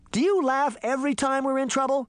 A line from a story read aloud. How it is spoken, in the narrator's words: Sabrina shouted